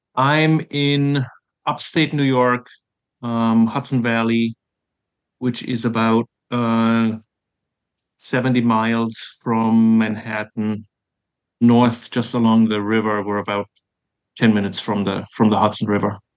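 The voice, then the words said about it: Slight German accent. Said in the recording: “you have a little hint of an accent ... I'm originally from Germany.”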